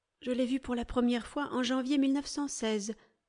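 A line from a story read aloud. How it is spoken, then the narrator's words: Plain. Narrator (French): répondit-elle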